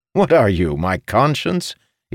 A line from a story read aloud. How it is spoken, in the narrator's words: chuckled